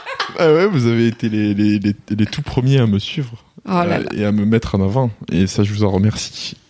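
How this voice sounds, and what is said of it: Light southern French accent. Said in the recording (French): “petit accent des cigales”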